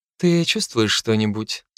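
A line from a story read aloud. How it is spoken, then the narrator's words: Innocent voice. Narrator (Russian): спросила она невинным голосом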